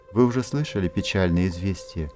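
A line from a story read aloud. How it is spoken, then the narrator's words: Sad question. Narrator (Russian): грустно спросил он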